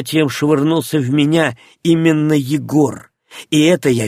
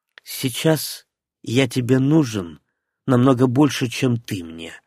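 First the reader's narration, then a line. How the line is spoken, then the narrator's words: Calm reply. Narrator (Russian): спокойно ответил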